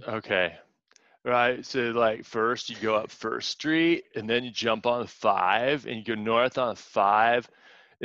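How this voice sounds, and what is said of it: Put-on Californian accent. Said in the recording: “your best Californian voice ... your best Californian impersonation.”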